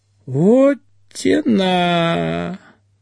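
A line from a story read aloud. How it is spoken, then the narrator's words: Drawling. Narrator (Russian): Протянул Ведищев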